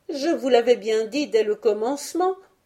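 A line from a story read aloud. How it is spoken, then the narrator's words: Exclaimed. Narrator (French): s'écrie-t-elle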